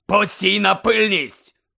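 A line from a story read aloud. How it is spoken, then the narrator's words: Barked. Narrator (Ukrainian): гаркнув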